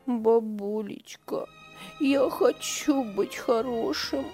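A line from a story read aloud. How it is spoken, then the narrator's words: Sobbing boy. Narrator (Russian): всхлипывал мальчик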